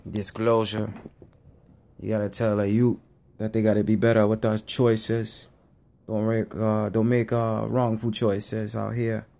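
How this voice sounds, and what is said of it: Fake Jamaican accent. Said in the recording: “my fake Jamaican accent”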